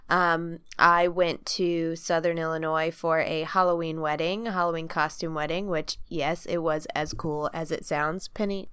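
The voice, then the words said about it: Congested, sick-sounding voice. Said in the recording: “Sorry if I sound like a nightmare... I've been dealing with a horrible cold”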